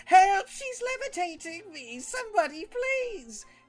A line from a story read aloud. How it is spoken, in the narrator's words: As I'm levitating, I'm going to just scream